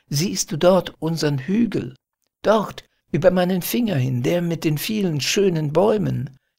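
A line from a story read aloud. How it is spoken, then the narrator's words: Called out. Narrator (German): rief er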